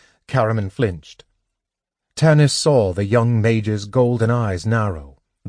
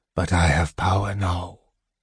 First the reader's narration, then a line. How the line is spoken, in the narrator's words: he whispered